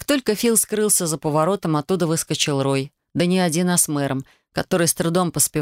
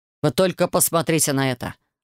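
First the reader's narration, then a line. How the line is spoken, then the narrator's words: Growling. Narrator (Russian): рыкнул инквизитор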